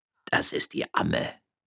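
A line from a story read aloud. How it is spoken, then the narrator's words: Murmur. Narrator (German): murmelte Gardunia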